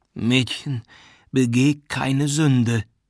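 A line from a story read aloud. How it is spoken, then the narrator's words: Moaning, sickly call. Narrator (German): rief mit stöhnender Stimme, die wie die eines Kranken klang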